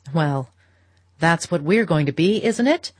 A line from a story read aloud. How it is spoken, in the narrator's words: cried her husband gaily